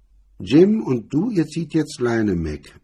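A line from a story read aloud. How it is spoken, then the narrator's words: Flat voice. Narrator (German): mit derselben flachen Stimme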